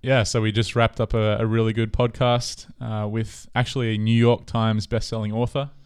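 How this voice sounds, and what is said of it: Australian accent. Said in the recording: “The Australian accent, again, it takes it to another level.”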